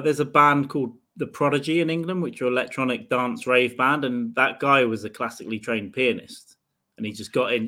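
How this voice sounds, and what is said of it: Speaker's own regional accent. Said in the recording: “It's my accent.”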